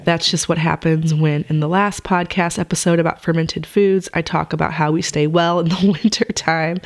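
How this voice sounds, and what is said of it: Sick-sounding voice. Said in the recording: “excuse my voice. I came down with something, so I am definitely a little bit sick.”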